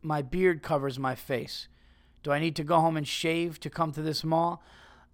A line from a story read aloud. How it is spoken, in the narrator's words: said